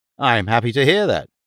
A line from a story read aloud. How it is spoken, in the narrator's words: he said